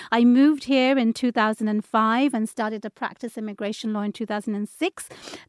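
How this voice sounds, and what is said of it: British London accent. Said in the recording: “If you can tune into my accent, I was born in London, UK.”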